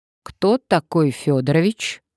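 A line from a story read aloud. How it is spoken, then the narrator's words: Stern question. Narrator (Russian): строго спросила Надежда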